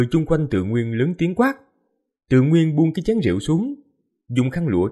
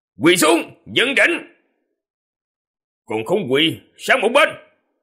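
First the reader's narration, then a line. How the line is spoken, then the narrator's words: Cold shout. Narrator (Vietnamese): Trần Đức quát lạnh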